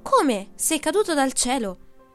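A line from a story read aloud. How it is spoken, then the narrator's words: Man shouting. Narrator (Italian): lui gridò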